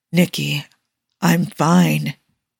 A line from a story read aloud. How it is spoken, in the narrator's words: he whispers